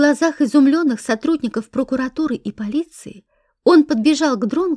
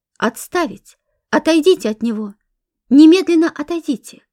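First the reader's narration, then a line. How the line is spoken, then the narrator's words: Sudden shout. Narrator (Russian): старший советник, изумленно смотревший на эту сцену, неожиданно закричал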